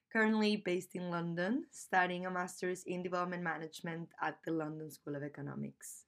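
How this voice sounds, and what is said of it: Spanish accent in English. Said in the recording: “this funny Spanish accent”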